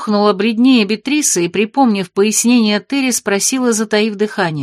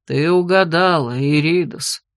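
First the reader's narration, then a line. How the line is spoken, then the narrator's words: Heavy sigh. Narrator (Russian): тяжело вздохнул Шерт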